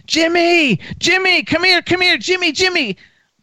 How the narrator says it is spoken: I hear him screaming

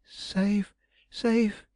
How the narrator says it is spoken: he gasped

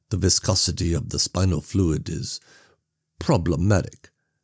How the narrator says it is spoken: Krenner murmured, not looking up from his work

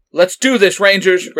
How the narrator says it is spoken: Red Ranger shouted

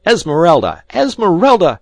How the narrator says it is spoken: he shrieked

